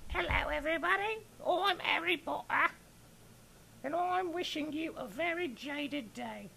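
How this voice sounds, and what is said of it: Put-on Harry Potter character voice. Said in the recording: “do my Harry Potter voice”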